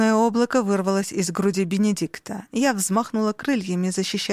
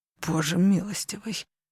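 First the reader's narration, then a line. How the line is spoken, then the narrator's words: Forced out. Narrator (Russian): выдавил Бенедикт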